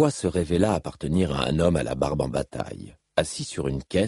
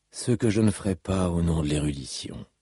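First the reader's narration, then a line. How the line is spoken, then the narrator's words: Musing with a sigh. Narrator (French): songea-t-il avec un soupir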